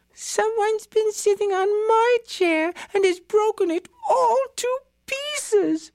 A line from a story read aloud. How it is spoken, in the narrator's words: wailed little Baby Bear